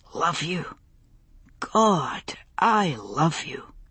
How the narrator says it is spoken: he murmured

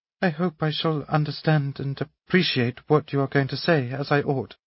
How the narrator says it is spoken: answered Natasha, faltering

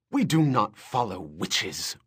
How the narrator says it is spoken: one woman snapped indignantly, smearing blood from her mouth and ready to keep fighting

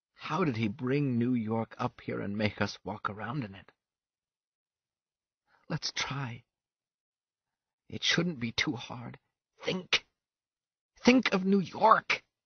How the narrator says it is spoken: he whispered, falling down into sleep

